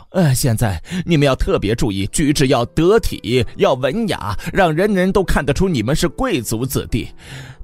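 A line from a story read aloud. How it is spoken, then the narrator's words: Breathless, coughing. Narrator (Chinese): 他气喘吁吁的边咳边说道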